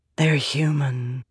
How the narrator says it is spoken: Vale whispered

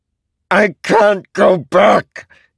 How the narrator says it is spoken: Nail shouted, but he seemed afraid of Kaladin

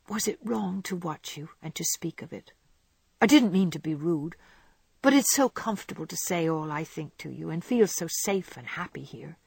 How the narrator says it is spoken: fearing that she had said too much, she whispered anxiously

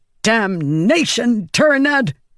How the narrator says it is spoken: Navani snapped

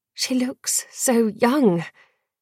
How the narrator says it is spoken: Dior murmured

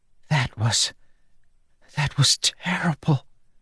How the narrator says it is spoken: she whispered

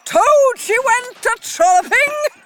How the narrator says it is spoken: she yelled

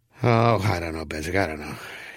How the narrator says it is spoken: Sam Swope wearily murmured

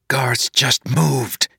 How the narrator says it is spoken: hissed

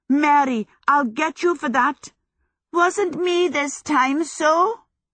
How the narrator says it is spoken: Mary shouted back

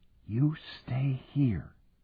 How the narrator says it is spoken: whispered

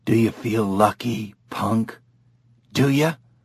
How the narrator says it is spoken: It was a raspy voice

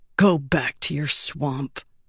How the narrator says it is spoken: Shaizan growled softly

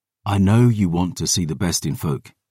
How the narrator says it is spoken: I said gently

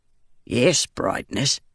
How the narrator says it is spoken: he said, his voice thick with a rural accent that bordered on Herdazian

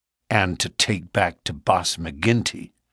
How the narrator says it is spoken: said Morris bitterly

